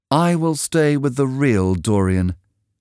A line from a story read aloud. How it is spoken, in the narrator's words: said sadly